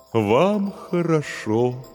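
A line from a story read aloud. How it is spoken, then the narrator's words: Mournful droning voice. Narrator (Russian): заунывным голосом произнес терем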